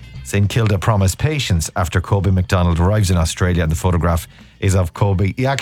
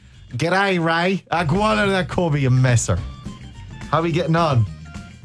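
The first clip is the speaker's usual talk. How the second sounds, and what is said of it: Put-on Australian accent. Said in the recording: “I bet he's already got the Australian accent.”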